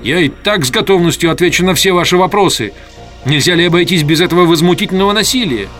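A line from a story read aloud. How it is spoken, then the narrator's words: Angry muttering while struggling. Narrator (Russian): Я начал вырываться, сердито приговаривая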